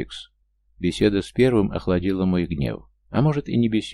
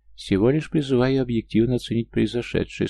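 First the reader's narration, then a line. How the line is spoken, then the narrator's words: Calm reply, cat. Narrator (Russian): спокойно ответил кот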